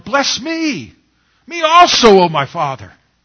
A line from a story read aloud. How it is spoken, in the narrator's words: He cried with an exceedingly and bitter cry and said to his father